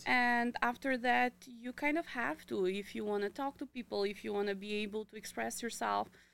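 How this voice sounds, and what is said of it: Non-native English accent. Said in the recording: “you have an accent”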